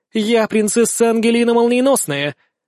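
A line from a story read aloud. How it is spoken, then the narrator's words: Loud, solemn declaration. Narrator (Russian): заявляет принцесса громко и торжественно, будто супергероиней себя возомнила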